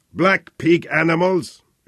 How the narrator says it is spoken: shouted Hermann Fleischer in Swahili

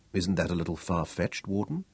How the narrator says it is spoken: Daniel asked softly

